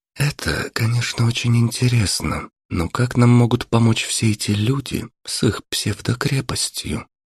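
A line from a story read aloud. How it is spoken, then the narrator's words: Whisper. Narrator (Russian): шепнула Марина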